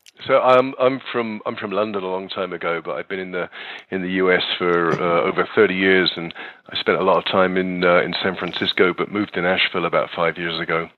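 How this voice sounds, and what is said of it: Accent not from Nashville. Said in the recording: “I detect a little bit of difference in your accents. you don't sound like you're from Nashville.”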